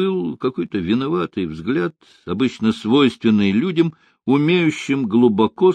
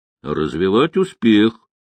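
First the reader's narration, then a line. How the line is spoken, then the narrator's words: Deep bass voice. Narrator (Russian): пробасил Малинин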